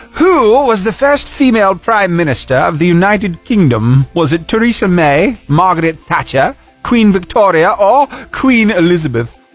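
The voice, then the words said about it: Put-on British accent. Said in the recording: “I'll ask the question in a British accent”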